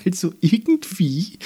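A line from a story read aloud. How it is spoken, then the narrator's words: Giggling, nearly choking. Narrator (German): sagte, verschluckte sich fast, weil sie so sehr kichern musste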